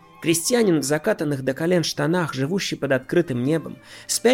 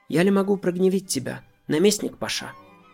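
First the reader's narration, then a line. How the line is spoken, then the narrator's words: Calm. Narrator (Russian): говорит спокойно поливальщик Фаде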